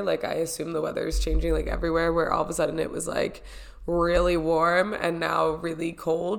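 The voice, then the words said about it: Sick, slightly off-sounding voice. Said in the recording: “she sound a little weird? She sounds off... my ears are clogged... I'm sick. I am sick.”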